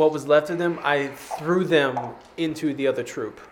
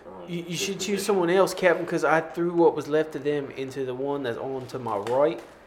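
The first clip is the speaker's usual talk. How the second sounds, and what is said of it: Put-on character accent. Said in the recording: “without the accent”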